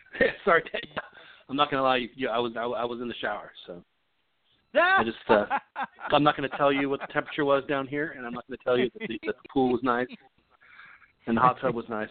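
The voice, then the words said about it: Out of breath, panting speech. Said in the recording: “You're out of breath.”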